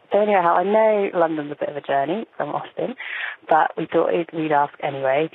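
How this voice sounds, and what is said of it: British accent. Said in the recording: “I love that accent. And I could listen to that all day.”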